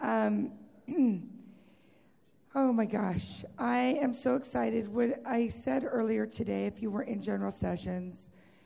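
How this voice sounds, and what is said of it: Weak, strained voice. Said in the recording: “my voice is really not very much here”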